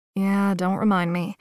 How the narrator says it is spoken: sighed

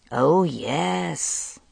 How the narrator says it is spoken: he mocked

